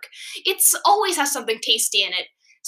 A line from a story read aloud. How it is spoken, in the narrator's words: Sweet Pea exclaimed, jumping up and down